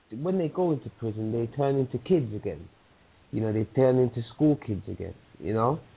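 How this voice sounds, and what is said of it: London accent. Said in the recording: “London. That's what I thought. For your accent.”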